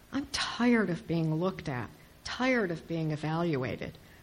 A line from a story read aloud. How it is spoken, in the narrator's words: Estella moans to Pip